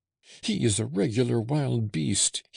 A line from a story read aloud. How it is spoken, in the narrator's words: he cried